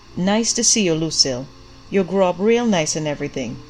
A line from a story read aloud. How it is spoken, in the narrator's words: he said